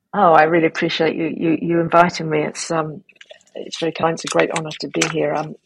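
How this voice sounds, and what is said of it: Fast speech, British accent. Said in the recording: “I tend to talk quite fast ... talk fast with a British accent”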